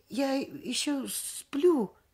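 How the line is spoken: Timid. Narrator (Russian): Я робко сказала

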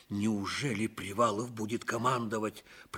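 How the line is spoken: Muttering. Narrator (Russian): пробормотал Левинцев

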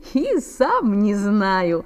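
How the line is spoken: Laughing. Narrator (Russian): засмеялся Саша

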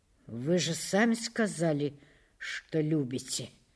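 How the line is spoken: Muttering. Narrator (Russian): пробормотал Улесов

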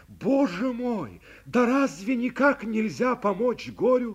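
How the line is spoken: Cried out. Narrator (Russian): закричал я

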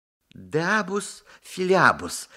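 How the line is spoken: Crisp, clipped enunciation. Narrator (Russian): отчеканивает Петя

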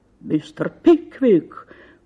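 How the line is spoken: Exclaiming. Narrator (Russian): воскликнул мистер Магнус

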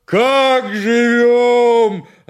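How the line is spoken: Yelling again. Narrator (Russian): опять завопил Семен

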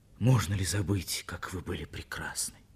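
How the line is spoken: Quiet, intimate. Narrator (Russian): Пушкин сказал тихо так, что услышала только она одна

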